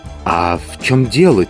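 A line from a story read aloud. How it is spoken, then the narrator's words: Quiet question. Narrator (Russian): тихо спросил Никанор Иванович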